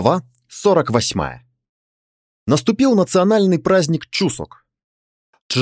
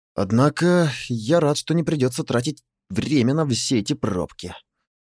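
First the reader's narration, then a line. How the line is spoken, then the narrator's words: Muttered. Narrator (Russian): пробормотал Чжэ-Ву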